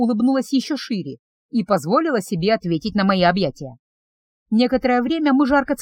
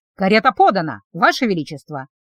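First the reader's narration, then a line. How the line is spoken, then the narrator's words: Growl. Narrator (Russian): рыкнул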